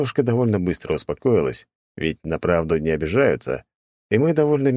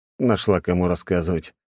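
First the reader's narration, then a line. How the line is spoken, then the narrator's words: Tired. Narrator (Russian): устало проговорил я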